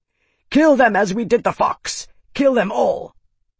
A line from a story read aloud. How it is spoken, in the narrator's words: Daroga roared